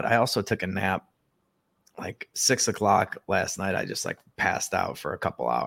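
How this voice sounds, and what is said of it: Rough, unwell-sounding voice. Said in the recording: “as you can kind of probably hear, my voice is still not 100% ... I just sound a lot like Bobby Kennedy or something. It sounds like I'm dying”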